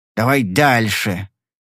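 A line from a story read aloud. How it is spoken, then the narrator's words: Angry growl. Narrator (Russian): прорычал он со злобой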